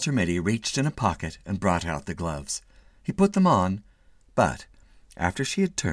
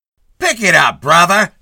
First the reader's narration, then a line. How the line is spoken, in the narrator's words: snapped a cop